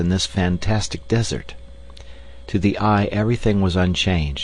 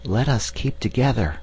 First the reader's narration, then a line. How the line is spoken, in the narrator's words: he whispered